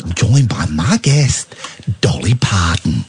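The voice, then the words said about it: Imitates another person's voice. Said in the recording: “best impression of Dan Wootton saying”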